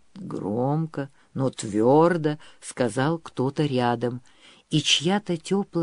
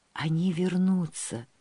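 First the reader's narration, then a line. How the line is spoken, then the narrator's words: Whispering. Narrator (Russian): шептала она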